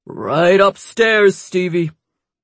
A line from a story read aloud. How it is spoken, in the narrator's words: Larry said, his voice booming up the steps